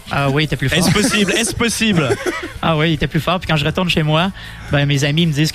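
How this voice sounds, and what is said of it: Québécois French accent. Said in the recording (French): “tu as gardé ce, ce fameux accent québécois ... ton accent était plus fort avant”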